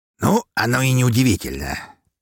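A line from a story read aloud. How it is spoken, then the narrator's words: Pleased smiling snort. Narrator (Russian): с довольной улыбкой хмыкнул граф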